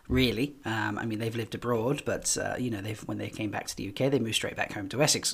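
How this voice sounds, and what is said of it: British accent with antipodean twang. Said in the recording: “He thought I was Australian. I have kind of a twang to the accent. Um, I used to live in New Zealand for a while, um, but I'm actually from the UK”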